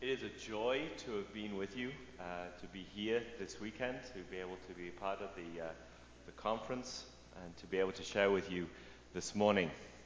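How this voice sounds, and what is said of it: British Manchester English accent. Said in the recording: “there's an accent there ... I'm British, born and raised in Manchester, England”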